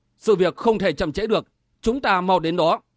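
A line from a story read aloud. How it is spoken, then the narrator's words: Solemn tone. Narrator (Vietnamese): Sở Vân nói với giọng trang nghiêm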